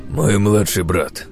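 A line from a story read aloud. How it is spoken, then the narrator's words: Sighing head healer. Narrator (Russian): вздохнул главный лекарь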